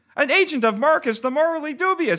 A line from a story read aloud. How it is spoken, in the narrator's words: exclaimed a man